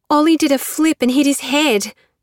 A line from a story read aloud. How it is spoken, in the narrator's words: Nettie gasped